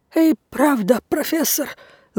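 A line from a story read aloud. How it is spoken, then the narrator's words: Choked babbling. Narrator (Russian): залепетал он, держась рукой за горло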